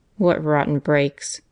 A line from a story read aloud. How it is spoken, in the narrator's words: he twisted in disgust and muttered